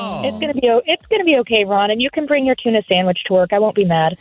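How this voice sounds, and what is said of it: Soothing customer service voice. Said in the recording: “she's got such a great customer service voice, too. ... will soothe your nerves. Yes, she will.”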